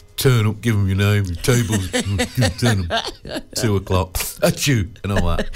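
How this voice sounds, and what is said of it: Imitates another person's voice. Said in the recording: “That was uncanny, weren't it? ... It was brilliant impersonation. ... It was almost as if you were in the room.”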